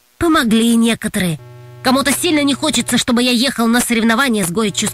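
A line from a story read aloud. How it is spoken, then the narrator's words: Plain. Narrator (Russian): сказал Толик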